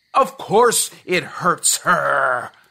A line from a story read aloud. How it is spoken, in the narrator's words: yelled Grandma